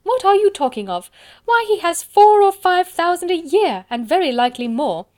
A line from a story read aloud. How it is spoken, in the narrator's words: cried his wife